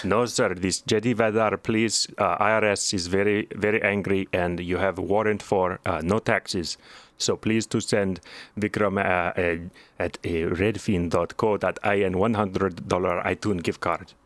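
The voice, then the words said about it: Put-on stereotyped Indian accent. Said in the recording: “He talks in a racist Indian voice ... despite being white ... using only racist Indian tropes”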